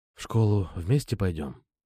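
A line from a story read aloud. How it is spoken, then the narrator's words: Whisper. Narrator (Russian): прошептал я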